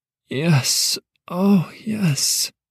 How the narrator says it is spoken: she gasped

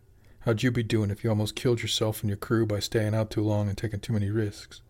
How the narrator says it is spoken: Jimmy sighed again

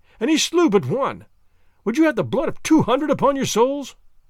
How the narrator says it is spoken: I cried

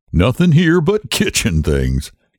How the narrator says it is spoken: he said with a little laugh for the insignificance of kitchen things

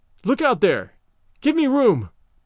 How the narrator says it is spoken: quickly

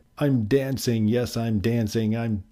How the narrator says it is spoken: Gerald cried

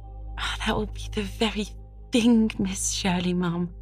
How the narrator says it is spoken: exclaimed Charlotta the Fourth in rapture

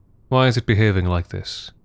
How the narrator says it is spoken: Kaizen had said

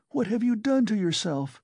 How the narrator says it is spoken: she said in despair

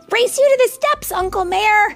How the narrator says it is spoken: Harold shouted, running past everyone

